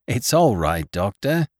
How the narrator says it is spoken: said Captain Gannington, laughing gently

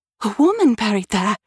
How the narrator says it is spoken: exclaimed in surprise

